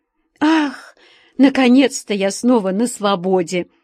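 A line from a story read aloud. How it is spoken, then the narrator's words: Relieved, joyful sigh. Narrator (Russian): Облегченно вздохнув, обрадовалась Алича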